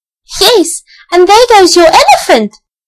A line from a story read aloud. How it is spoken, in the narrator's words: shouted Elsie